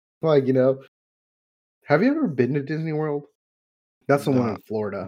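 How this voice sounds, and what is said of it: Usual voice. Nothing is said of it.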